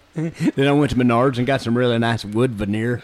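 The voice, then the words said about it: Put-on Martinsville accent. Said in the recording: “It's a pretty good Martinsville accent you got there.”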